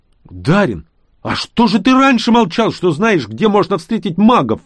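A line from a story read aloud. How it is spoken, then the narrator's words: Indignant shout. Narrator (Russian): возмущенно закричал я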